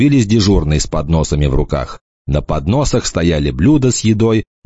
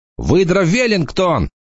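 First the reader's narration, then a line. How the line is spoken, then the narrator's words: Boy shouting out. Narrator (Russian): выкрикнул какой-то мальчик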